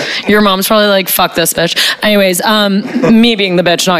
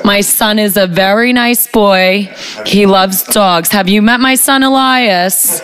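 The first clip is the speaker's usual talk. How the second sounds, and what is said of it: Jewish mom character voice. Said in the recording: “I had to do the Jewish mom voice.”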